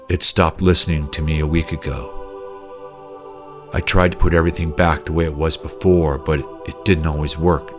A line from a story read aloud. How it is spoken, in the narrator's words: said gently with angst